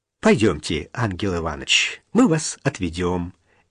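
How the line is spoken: Gentle. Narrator (Russian): мягко сказал Боровицкий

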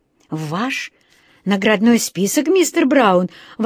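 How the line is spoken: Astonished male exclamation. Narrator (Russian): воскликнул он изумленно

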